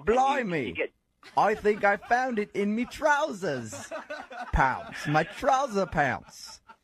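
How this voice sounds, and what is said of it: Mocking put-on English accent. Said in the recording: “I've never talked to an English guy before ... fascinated with my accent ... making fun of me”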